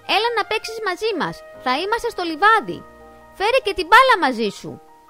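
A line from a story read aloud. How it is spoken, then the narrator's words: Shouted. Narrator (Greek): φώναξε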